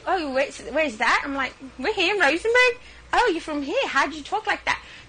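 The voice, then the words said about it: British-sounding accent. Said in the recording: “she speaks in a British accent ... this woman who's never been to England and now talks like this ... Don't let the Queen's tongue fool you ... Is 100% Texan”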